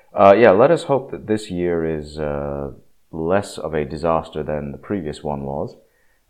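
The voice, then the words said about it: Slightly ill, cold-affected voice. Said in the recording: “You may be able to tell from my voice, I'm not 100% ... I seem to have caught what appears to be a mild cold”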